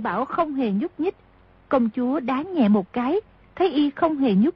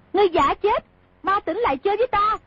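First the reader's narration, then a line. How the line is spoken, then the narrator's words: Angry shout. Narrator (Vietnamese): Công chúa tức giận quát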